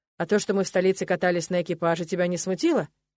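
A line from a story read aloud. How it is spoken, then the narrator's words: Smirking snort. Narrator (Russian): хмыкнул Нолан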